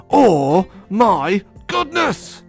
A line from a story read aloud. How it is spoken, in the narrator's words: She shrieked